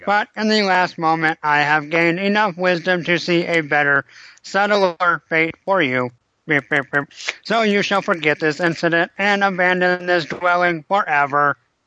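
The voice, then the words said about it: Robot voice. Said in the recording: “I gotta do robot voice.”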